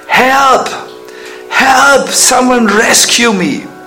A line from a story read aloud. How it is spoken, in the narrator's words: While drowning, cried out in distress